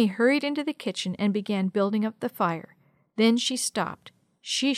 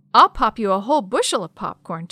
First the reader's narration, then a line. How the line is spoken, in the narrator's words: Tommy exclaimed